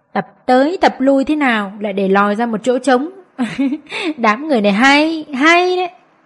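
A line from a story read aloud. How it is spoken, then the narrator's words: Smug sarcastic tone. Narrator (Vietnamese): Nước mắm nhĩ hai mắt gã híp lại khoan khoái, sau cùng cất giọng mỉa mai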